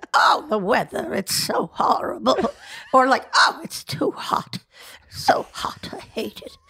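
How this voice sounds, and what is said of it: Old lady voice. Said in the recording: “old lady voice”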